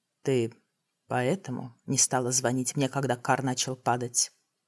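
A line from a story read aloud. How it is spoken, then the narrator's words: Quiet question. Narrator (Russian): спросил Тамир тихо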